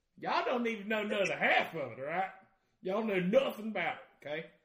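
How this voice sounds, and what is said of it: Put-on Southern redneck accent. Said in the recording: “my southern accent, redneck at parties up here, flawless ... he's doing it”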